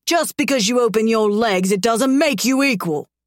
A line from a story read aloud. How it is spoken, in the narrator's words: he roars, venom in his tone